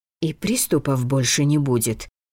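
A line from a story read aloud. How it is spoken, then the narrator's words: Suddenly hoarse question. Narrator (Russian): снова спросила внезапно охрипшим голосом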